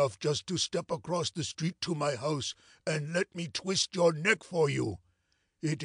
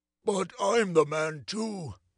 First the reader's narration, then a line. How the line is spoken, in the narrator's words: said our friend mournfully